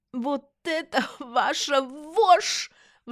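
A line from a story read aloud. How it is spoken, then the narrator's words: Shrill squeal. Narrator (Russian): взвизгнула Эмма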